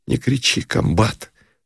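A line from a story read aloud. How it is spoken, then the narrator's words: Sobbing whisper. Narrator (Russian): всхлипывающим шепотом сказал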